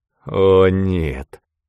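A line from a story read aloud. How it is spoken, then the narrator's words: Despairing moan. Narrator (Russian): простонал Эйнсли, понимая, что случилось самое страшное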